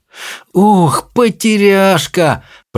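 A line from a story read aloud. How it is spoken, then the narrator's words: Moaning. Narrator (Russian): простонала Чармайн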